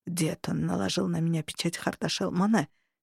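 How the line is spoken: Low growl. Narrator (Russian): негромко прорычал Хартат

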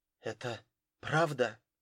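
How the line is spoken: Slightly trembling question. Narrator (Russian): чуть дрогнувшим голосом спросила Рэйчел

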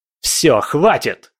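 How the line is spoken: Thunderous bark. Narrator (Russian): рявкнул так, что аж стены ходуном заходили

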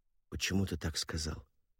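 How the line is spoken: Whispered question. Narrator (Russian): шепотом спросила Джейн

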